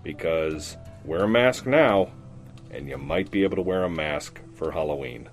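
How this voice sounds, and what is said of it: Muffled, muted voice. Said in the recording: “my voice sounds a bit muted, it's because I'm wearing a mask”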